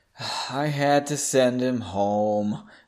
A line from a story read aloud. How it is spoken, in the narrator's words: said in a depressed tone